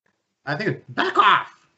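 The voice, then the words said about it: Chicken impression voice. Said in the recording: “Good chicken impression.”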